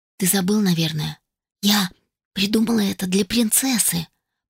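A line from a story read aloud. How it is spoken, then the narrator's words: Faint hoarse slurred rasp. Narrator (Russian): прохрипела едва слышно, с трудом ворочая языком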